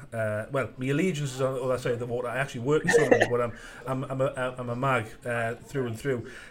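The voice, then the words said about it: Northeast English accent. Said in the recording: “you can tell from my accent, I'm from the northeast”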